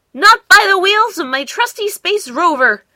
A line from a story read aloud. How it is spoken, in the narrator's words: cried Bork bravely